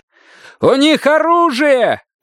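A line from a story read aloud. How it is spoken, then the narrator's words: Shouted. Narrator (Russian): крикнул комиссар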